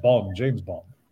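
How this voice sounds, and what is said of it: Imitates another person's voice. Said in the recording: “Sean Connery's, yeah. I'm sure you've got that accent going.”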